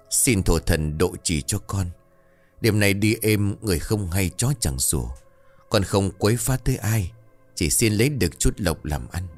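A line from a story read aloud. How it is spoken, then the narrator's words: Solemn, soft-spoken. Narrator (Vietnamese): Đứng trong bộ dạng nghiêm cẩn, hắn bấy giờ liền khẽ nói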